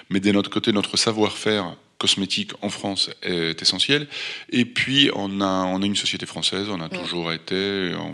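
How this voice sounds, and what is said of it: Light non-French accent. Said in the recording (French): “il y a juste mon accent qui ne l'est pas... il est léger l'accent”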